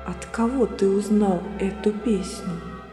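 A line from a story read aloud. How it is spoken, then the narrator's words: Quiet question. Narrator (Russian): тихо спросил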